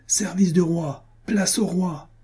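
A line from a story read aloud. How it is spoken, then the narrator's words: Booming shout. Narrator (French): cria-t-il d'une voix retentissante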